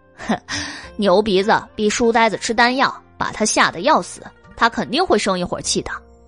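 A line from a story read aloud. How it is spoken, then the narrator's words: Laughing. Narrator (Chinese): 黎奴笑道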